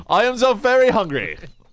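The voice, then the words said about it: Put-on slightly British accent. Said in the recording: “It was slightly British.”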